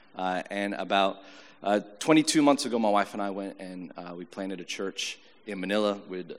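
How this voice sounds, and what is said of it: American accent. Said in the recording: “born in the Philippines with an American accent ... I went to an American school in the Philippines, and that's why I have this accent”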